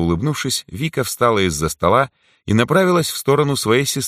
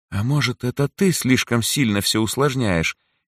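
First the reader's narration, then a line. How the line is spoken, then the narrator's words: Hesitant question. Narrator (Russian): неуверенно спросила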